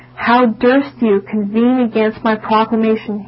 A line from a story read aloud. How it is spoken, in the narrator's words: he said